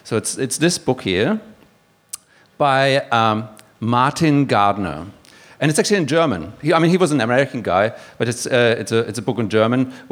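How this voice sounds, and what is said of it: Non-native English accent. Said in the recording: “you can probably tell from my accent that I'm not originally from here”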